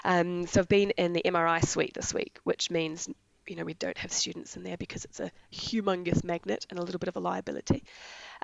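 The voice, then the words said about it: Raspy, sick-sounding voice. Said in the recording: “I've been sick this week, which is why I've got the raspy voice”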